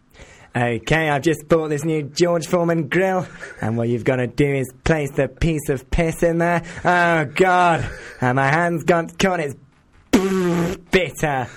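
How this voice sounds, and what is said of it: Bear Grylls impression. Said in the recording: “Do an impression of Bear Grylls getting his hand caught in a grill.”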